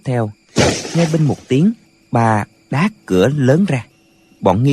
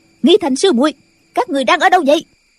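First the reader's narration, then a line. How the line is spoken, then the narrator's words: Shouting again. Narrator (Vietnamese): Nghi Hòa lại quát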